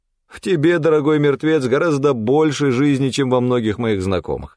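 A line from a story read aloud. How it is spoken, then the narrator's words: Laughing. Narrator (Russian): рассмеялся Данте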